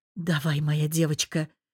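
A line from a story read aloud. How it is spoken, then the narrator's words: Hoarse male voice. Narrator (Russian): хриплый голос мужа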